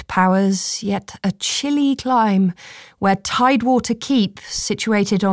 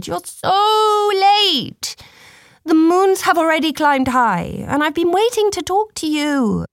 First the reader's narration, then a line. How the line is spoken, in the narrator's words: cried